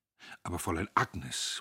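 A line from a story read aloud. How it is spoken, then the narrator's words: Frightened murmur. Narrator (German): murmelte er, furchtbar erschrocken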